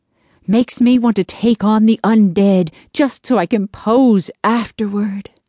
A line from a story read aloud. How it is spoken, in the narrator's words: Roscoe sighed dreamily